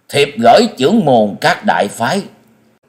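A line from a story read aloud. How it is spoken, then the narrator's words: Solemn loud proclamation. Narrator (Vietnamese): Ngọc Hư đạo trưởng sắc mặt trầm ngưng, cao giọng tuyên đọc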